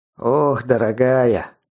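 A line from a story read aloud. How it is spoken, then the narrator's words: Breathed out. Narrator (Russian): наконец выдохнул он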